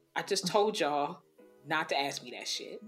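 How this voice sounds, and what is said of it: Imitates another person's voice. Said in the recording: “In my August Delcina voice,”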